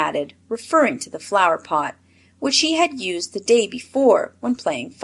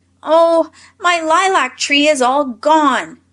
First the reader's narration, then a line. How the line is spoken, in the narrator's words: cried the little boy